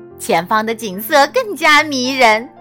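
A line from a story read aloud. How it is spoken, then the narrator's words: Smiling. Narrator (Chinese): 微笑着说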